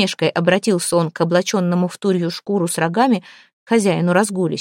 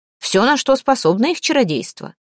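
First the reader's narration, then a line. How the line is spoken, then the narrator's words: Loud, angry laughter. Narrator (Russian): расхохотался, громко и зло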